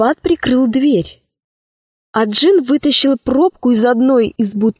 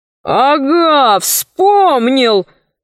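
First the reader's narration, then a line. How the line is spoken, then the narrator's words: Shouted, shivering. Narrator (Russian): Джин поежился и крикнул Синдбаду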